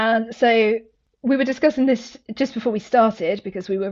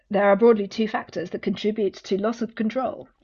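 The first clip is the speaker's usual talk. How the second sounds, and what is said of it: Put-on scary reading voice. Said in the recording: “my scary voice”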